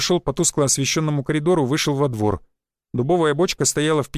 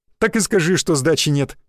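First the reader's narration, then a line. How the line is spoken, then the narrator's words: Chuckling. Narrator (Russian): хохотнул я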